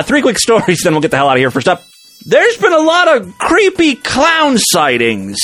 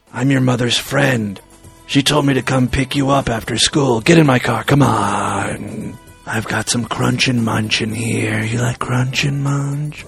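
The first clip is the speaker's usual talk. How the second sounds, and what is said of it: Mock sexy creepy voice. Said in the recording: “This is my sexy voice. Sounds a lot like my child predator voice.”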